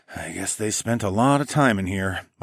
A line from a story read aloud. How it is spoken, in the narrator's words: I muttered